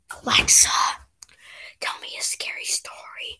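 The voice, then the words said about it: Creepy whispered voice. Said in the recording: “the scariest thing I've heard today, is you using that voice ... because I had to whisper”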